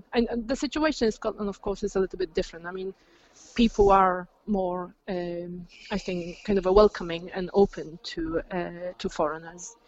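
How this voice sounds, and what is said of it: Polish accent in English. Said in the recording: “they hear my accent ... I say I'm from Poland”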